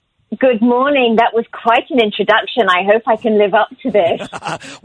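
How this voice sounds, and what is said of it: English accent. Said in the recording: “If the person has an English accent, they're in ... forget about the accent”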